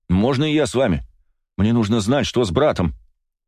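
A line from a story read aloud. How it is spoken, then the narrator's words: Shout after someone. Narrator (Russian): крикнул я вслед командиру безопасников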